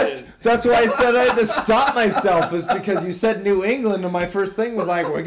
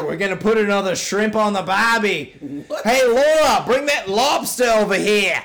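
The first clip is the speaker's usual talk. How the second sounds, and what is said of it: Put-on Australian accent. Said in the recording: “Why are we Australian?”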